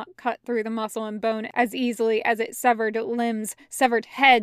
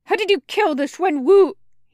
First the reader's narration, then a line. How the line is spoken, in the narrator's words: He shouts, and his voice is a screech, the sound of sharp metal being dragged across rough stones